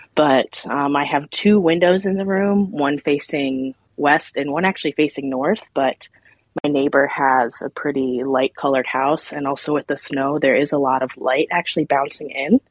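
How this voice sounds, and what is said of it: Breathless, talking really fast. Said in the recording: “Why am I getting out of breath? I feel like I'm talking really fast.”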